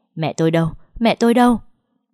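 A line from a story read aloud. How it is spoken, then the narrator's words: Shouting. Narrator (Vietnamese): la hét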